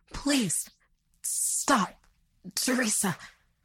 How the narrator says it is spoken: he sputtered out in pain

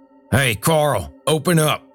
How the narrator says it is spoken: Earl shouted

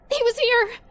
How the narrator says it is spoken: cried

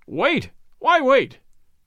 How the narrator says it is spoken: cried the company

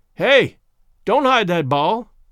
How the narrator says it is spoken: he yelled in his piercing tenor

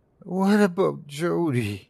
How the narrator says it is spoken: he said, his voice a mere whimper, like he was asking a question he wasn't sure he wanted the answer to, like he didn't want the answer

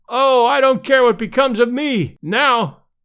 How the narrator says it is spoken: one fan, evidently a little longer winded than his comrades, cried out hysterically

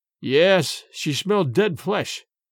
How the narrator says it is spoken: replied Dorda gloomily

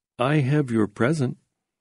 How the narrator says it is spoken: said timidly

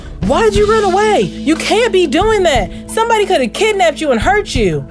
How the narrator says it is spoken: starts yelling at the girl

